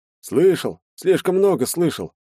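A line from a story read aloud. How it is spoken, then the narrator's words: Mysterious sigh. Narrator (Russian): загадочно вздохнул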